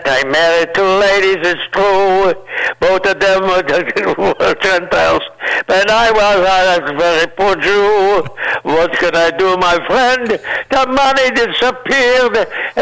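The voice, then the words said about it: Put-on Jewish comedic accent. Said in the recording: “I want to say in my accent ... I do that for my people”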